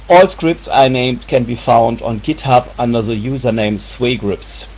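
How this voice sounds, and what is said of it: Strong accent. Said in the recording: “my big accent”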